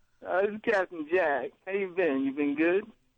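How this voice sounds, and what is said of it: Imitates another person's voice. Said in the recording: “this sounds like an impersonation of Captain Jack”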